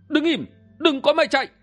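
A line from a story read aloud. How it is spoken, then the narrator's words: Loud shout. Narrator (Vietnamese): Kim Ngang Tiêu quát lớn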